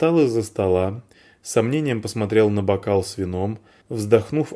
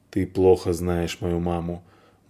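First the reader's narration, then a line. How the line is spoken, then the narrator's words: Muttered grumble. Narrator (Russian): буркнул драматург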